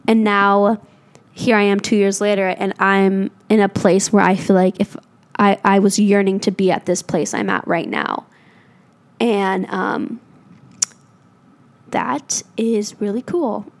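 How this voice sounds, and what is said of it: Emotional, teary voice. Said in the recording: “I'm getting teary-eyed, guys.”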